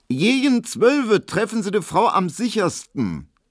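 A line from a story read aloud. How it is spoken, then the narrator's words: Loud, meant to be overheard. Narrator (German): sie sagte so laut, dass es Emil Kubinke hören musste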